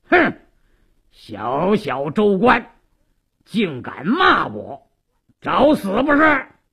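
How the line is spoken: Stern angry shout. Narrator (Chinese): 鲁斋郎厉声喝道

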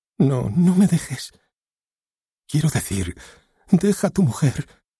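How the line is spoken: Pleaded. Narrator (Spanish): suplicó Alice

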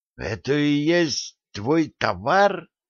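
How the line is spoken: Young man, horrified whisper. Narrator (Russian): с ужасом прошептал юноша

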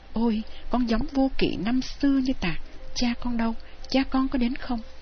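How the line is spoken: Joyful exclamation. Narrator (Vietnamese): ông mừng rỡ kêu lên

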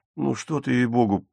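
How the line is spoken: Mumbling. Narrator (Russian): промямлил Вольфганг

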